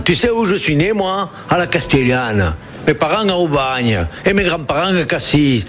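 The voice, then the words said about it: Marseille southern French accent. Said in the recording (French): “T'entends pas mon accent?”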